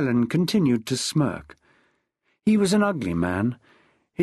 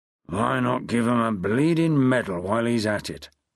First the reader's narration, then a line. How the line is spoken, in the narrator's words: growled Glass